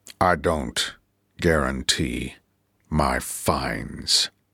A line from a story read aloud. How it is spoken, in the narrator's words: he said, forcing himself to speak quietly, slowly